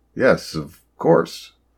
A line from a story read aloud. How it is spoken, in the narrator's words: the doctor stammered a bit, not sure who to talk to next